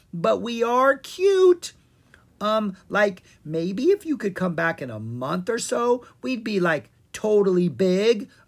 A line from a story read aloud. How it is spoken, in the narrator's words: a second pumpkin squeaked